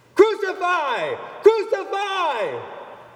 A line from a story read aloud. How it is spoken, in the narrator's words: the chief priests and their officials saw him, they shouted